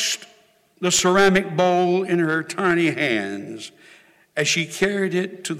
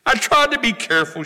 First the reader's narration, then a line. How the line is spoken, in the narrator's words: sobbed